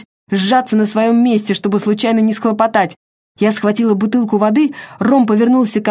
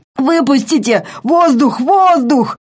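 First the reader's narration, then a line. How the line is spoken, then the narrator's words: Hoarse, gasping, choking. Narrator (Russian): он хрипел и задыхался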